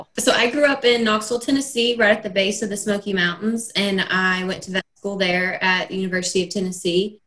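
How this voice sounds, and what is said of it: Noticeable natural regional accent. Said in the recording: “do you hear her accent ... It's lovely ... she comes by it honestly”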